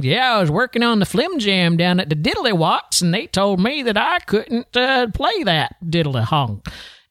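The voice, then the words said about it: Exaggerated Appalachian Southern accent. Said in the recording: “somebody from the back Appalachian Hill country that had just a ridiculous Southern accent”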